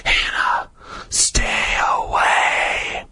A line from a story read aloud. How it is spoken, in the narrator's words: it whispered